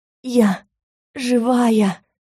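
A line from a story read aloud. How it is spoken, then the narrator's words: Hoarse wheeze. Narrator (Russian): снова просипела я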